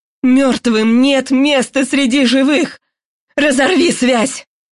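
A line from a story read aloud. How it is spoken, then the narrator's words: Angry neighbor grumbling. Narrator (Russian): голос соседки из комнаты напротив сердито проворчал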